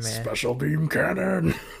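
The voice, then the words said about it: Imitates cartoon character Piccolo's voice. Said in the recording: “My Piccolo impression.”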